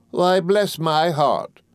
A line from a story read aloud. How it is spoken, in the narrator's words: exclaimed Miss Betsy